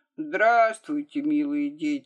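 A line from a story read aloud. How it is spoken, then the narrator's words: Sleepy reply. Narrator (Russian): сонно отвечает толстый Мара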